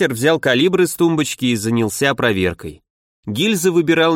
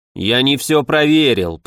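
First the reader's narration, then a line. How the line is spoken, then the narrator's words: Grumbling. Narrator (Russian): проворчал Фомич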